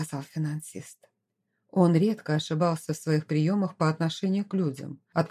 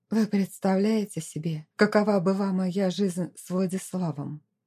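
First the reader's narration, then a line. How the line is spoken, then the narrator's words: Hollow, muffled voice. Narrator (Russian): глухим голосом проговорила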